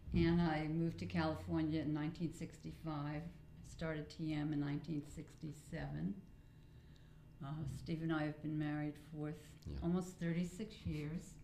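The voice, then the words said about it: New York accent. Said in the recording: “I'm originally from New York, which you can probably tell from my accent.”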